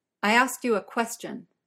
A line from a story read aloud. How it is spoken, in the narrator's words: Uther says sharply